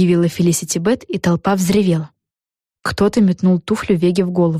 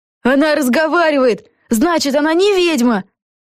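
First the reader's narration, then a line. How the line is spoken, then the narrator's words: Crowd shouting. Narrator (Russian): закричали в толпе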